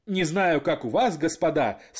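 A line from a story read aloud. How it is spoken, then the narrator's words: Speaking through laughter. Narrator (Russian): сквозь смех говорил офицер слева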